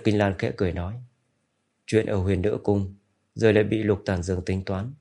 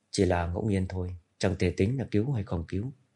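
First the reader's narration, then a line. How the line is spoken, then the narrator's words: Soft light laugh. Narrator (Vietnamese): Cố Mạch khẽ cười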